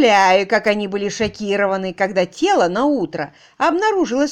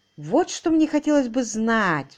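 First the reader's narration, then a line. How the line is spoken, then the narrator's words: Sighing. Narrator (Russian): вздохнул Уимзи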